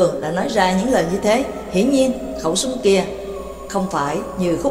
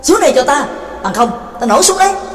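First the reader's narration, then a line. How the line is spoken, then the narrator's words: Impatient loud shout. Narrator (Vietnamese): Trắc Mộc Cường Ba đã hết kiên nhẫn, bèn lớn tiếng quát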